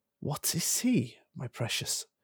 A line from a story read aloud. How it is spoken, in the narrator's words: whispered Gollum, who always spoke to himself through never having anyone else to speak to